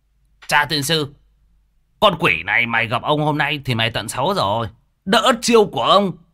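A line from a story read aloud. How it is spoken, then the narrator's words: Loud laughter. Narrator (Vietnamese): Thằng gầy mới cười lớn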